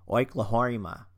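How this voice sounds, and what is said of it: Bad put-on Australian accent. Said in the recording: “I always want to say it in an Australian accent ... I'm horrible at the Australian accent”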